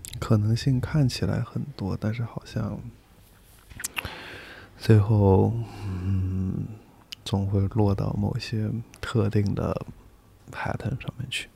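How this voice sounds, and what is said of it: Hushed, whisper-like speaking. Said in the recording (Chinese): “我就感觉你说话真的很像上课讲悄悄话。”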